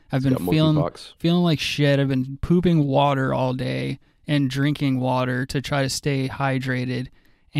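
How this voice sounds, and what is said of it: Raspy, sick-sounding voice. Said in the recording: “My voice is raspy.”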